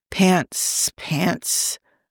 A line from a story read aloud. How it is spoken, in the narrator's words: he mumbled